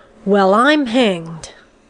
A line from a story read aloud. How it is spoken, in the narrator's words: Headland exclaimed loudly